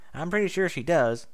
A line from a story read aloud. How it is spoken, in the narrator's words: Applebloom said